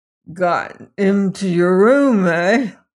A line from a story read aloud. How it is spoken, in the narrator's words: said thickly, then exploded in moist laughter